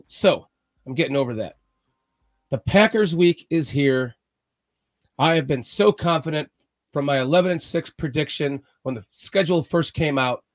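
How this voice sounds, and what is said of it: Weird, sick-sounding voice from cold. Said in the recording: “Sorry about my weird voice. ... the state got me sick with a chest cold.”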